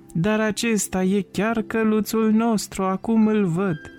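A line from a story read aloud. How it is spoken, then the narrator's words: Little boy shouting happily. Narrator (Romanian): băiețelul a strigat bucuros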